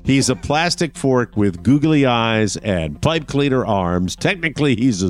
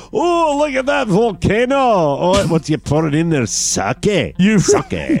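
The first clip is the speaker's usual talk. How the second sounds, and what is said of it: Put-on Scottish accent. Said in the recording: “Scottish accent ... let's do that accent ... Two Scotsmen sitting there”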